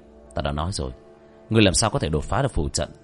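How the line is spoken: Cold mutter. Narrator (Vietnamese): Ánh mắt của Vương Quân Diệt đông lại, lẩm bẩm

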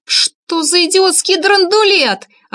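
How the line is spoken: Yelling. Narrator (Russian): орала Вика

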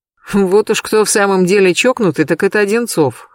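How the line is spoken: Chuckling. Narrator (Russian): хохотнул Сергей Львович

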